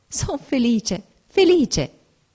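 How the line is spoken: Ecstatic joyful exclamation. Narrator (Italian): Era una felicità viva, inebriante, esclamai

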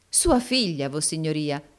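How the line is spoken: Exclaimed. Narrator (Italian): esclamò il baronetto Mulberry volgendosi all'amico

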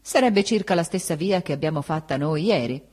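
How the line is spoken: Curt, dry. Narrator (Italian): disse seccamente

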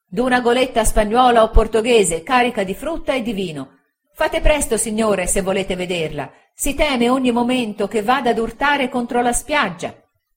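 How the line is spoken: Excited shouting. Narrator (Italian): quella voce eccitata gridando

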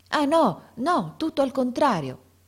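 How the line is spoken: Passionate exclamation. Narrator (Italian): esclamò De Rossi con uno slancio dell'anima

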